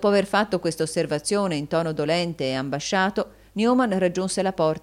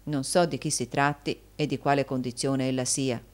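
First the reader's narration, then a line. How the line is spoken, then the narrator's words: Plain. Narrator (Italian): egli disse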